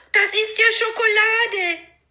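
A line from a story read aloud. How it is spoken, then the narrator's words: Call. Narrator (German): rief er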